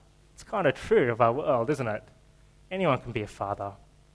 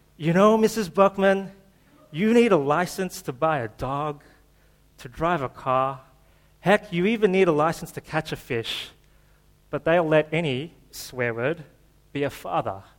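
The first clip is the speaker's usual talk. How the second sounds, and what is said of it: Keanu Reeves impression. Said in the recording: “I'll do it with my Keanu Reeves accent for you.”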